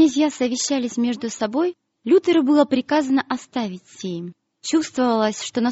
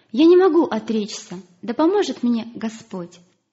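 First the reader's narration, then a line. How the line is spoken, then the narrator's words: Calm. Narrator (Russian): Но реформатор спокойно ответил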